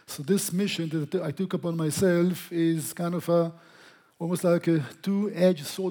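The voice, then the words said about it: English with a foreign accent. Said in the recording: “It's English with a funny accent that you're listening to, and the accent is not going to change”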